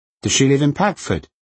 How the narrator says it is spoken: asked Crystal sharply

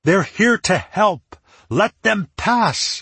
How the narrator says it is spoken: shouted

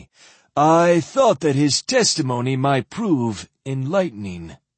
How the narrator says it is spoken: Dolmont said smoothly

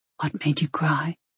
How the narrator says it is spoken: He whispered

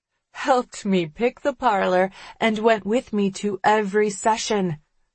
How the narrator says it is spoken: the girl says with a laugh

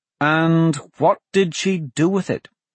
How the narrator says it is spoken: Blaze said

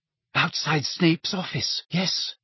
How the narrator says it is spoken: whispered Hermione, her eyes sparkling with tears

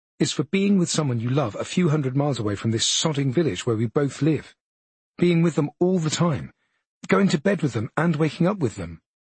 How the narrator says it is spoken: I say firmly

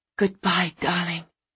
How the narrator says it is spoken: whispered

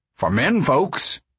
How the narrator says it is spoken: he said sternly

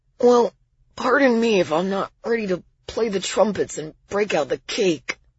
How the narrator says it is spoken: Miles replied, his voice hoarse and scratchy

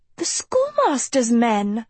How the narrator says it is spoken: Sophie cried

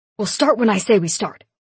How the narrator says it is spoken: he snapped

